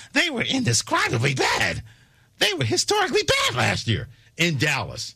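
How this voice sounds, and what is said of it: Imitates another person's voice. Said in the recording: “I'm going to do my best Tim Kirchner impersonation.”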